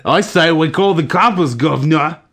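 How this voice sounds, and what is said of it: Terrible put-on Boston accent. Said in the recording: “That was a terrible Boston accent.”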